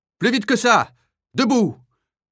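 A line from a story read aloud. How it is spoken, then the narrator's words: Yelled by block chief. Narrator (French): hurle le chef de bloc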